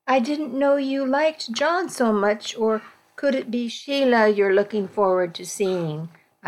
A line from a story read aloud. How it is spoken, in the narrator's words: I asked, keeping my voice light